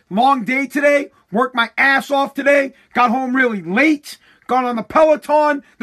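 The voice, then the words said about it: Slightly raspy voice. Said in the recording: “my voice a little raspy.”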